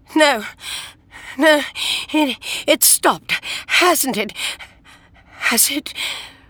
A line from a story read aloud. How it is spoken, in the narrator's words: she screamed